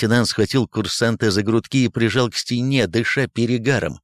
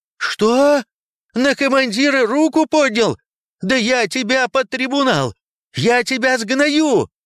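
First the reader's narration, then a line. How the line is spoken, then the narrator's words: Ugly shrieking. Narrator (Russian): Некрасиво визжал лейтенант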